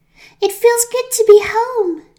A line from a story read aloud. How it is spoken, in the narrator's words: shouted Blossom